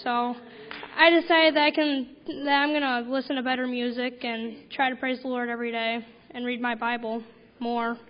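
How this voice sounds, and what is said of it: Hoarse, strained voice. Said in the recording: “I kind of lost my voice during this trip”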